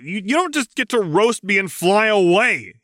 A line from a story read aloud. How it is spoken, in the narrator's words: he yelled, fighting for purchase